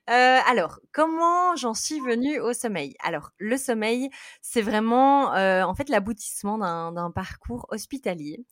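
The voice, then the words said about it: Belgian French accent. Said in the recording (French): “je suis belge. Euh, donc, désolée pour mon accent.”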